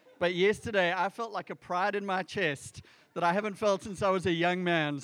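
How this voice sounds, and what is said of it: South African accent. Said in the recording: “this is a South African accent.”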